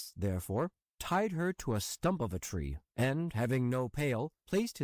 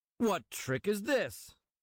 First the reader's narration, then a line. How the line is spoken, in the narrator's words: exclaimed he